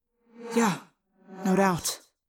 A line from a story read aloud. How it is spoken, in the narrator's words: Tobias said bitterly